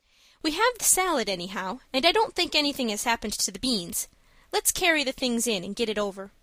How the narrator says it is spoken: said Anne, sobering down again with a sigh of recollection

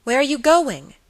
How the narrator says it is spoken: exclaimed

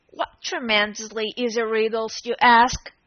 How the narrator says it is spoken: Humpty Dumpty growled out

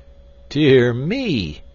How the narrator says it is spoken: he exclaimed

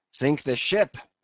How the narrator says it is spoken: cried Steelkilt

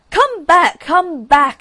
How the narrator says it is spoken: screamed the Rocket

